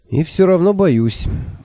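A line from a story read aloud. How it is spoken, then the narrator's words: Gloomy admission. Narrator (Russian): мрачно признался я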